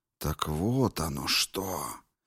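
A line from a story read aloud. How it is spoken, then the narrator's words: Deafening whisper. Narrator (Russian): прошептала, и шепот ее был оглушителен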